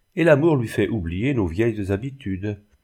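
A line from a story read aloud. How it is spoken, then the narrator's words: Sad smiling self-talk. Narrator (French): se dit Madame la Faucherie en souriant tristement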